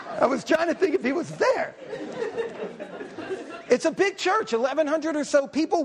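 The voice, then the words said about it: Obvious non-local accent. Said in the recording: “When I talk, the accent, it's quite obvious.”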